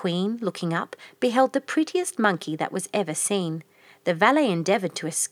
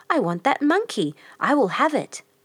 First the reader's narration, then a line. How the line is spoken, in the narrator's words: her son cried